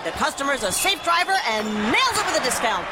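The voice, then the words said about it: Sports play-by-play announcer voice. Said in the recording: “my impression of a play-by-play announcer who loves to save money”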